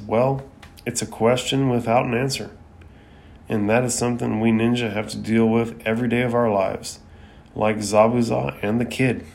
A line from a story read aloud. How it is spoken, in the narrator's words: Kakashi sighs and lowers his head and says